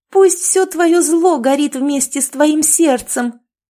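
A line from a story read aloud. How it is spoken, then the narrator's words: Shouted. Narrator (Russian): она закричала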